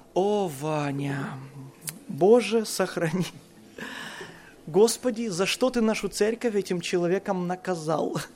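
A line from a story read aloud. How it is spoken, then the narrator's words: Pastor's heavy sigh, speech. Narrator (Russian): пастор тяжело вздохнет и скажет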